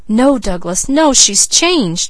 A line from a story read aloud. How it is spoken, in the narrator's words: cried Leslie